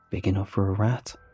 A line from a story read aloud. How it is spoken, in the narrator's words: muttered